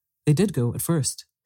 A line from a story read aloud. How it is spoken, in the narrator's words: said her papa